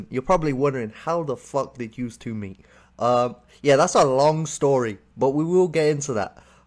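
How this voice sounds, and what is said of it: British-accented English. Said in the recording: “obviously, I'm from the UK. You can tell we got a bit of a different accent.”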